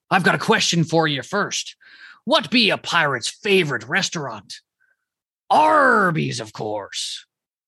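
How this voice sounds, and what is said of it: Put-on pirate accent. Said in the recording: “I'll spare you the accent.”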